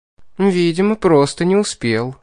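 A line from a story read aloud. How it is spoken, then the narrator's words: Feigned sigh. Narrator (Russian): лицемерно вздохнула Кейтлин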